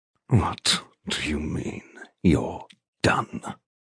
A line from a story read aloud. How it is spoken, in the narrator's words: He snarls